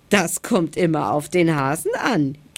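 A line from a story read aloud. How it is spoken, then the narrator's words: Giggling hedgehog. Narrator (German): kicherte der Igel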